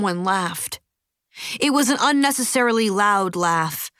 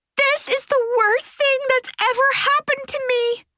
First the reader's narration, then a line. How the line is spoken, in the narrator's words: Bree wailed